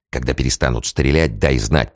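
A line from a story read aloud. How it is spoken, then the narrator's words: Whispered. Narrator (Russian): прошептал Зэ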